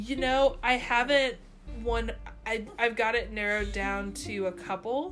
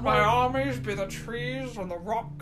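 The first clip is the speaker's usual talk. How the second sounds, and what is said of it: Decent impression of a Scottish-accented actor. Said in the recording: “That's not a bad Sean Connery impression.”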